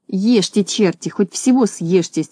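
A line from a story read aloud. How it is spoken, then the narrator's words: Angry muttering. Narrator (Russian): сердито бормотал он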